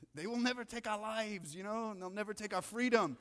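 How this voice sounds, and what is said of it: Poor William Wallace Braveheart accent. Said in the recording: “that was a terrible accent”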